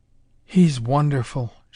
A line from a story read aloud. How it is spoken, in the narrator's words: she breathed